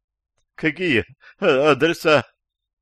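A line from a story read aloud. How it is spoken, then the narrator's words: Crying, whimpering, broken prisoner. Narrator (Russian): Плача и поскуливая, спросил морально и физически сломленный пленник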